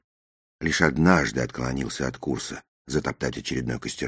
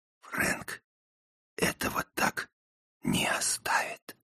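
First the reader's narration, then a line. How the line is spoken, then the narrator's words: Whispering. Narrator (Russian): прошептал я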